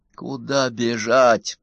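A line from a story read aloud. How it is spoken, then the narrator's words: Sigh. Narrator (Russian): вздохнул Удалов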